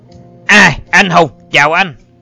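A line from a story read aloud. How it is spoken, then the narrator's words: Loud voice. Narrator (Vietnamese): Anh ta lớn tiếng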